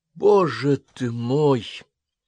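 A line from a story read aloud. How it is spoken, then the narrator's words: Stunned exclamation. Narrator (Russian): ошеломленно воскликнула Карен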